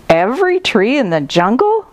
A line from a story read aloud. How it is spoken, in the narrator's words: exclaimed Monkey